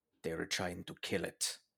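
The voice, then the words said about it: Bad imitation of film character's accent. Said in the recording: “that's a horrible accent”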